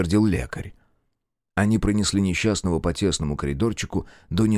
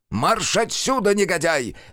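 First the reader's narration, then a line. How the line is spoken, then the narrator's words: Barked order. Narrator (Russian): рявкнул Хальбер Крум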